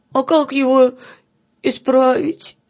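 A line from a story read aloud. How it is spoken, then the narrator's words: Sobbing question. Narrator (Russian): спросил всхлипывая Филька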